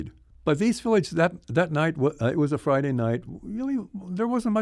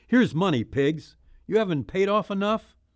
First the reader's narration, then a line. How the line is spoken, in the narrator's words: shouting